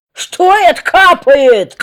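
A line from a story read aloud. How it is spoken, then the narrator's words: Woman exclaiming. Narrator (Russian): Жена ворона воскликнула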